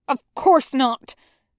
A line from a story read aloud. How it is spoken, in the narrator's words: Zhang Cheng snaps